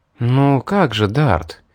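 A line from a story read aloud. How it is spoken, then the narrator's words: Gentle. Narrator (Russian): мягко проговорила Мэри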